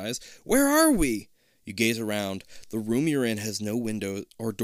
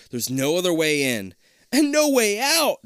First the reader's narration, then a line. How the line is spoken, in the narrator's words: Jason wails